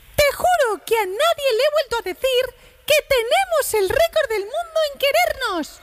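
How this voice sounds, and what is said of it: Mickey Mouse cartoon voice. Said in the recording (Spanish): “poniendo la voz de Mickey Mouse ... Porque te sale muy bien.”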